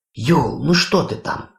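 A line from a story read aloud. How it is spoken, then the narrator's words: Exclaimed. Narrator (Russian): воскликнула Хона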